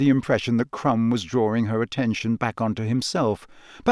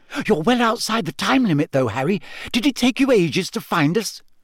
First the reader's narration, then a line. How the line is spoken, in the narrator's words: impatiently and said